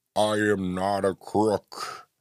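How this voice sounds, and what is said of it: Poor impression of a president's voice. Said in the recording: “my terrible Nixon impersonation”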